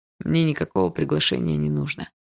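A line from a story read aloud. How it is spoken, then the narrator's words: Muffled reply. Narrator (Russian): глухо ответил тот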